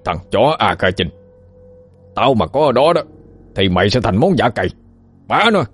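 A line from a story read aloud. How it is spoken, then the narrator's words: Furious shout. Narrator (Vietnamese): tư lĩnh như quá điên, lão quát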